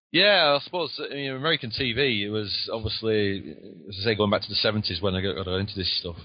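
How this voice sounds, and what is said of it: Lancashire English accent. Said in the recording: “he sounds a little different than my my my southern sound ... I've, I've, got the Lancashire accent.”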